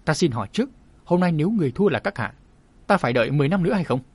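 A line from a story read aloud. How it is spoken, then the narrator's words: Old man's sneer. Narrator (Vietnamese): Chu lão cười nhạt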